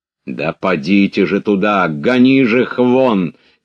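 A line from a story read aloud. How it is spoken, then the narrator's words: Officer shouting. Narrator (Russian): крикнул старший офицер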